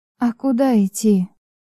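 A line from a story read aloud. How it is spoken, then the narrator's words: Muffled, hollow reply. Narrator (Russian): глухим голосом отзываюсь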